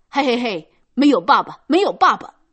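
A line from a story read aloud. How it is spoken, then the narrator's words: Loud mocking taunt. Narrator (Chinese): 用一种嘲弄的样子高声的叫道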